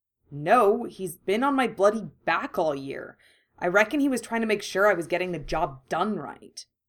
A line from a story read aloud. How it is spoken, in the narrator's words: he said bitterly